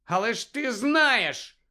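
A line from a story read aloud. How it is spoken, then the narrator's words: Shouted. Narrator (Ukrainian): крикнув Гаррі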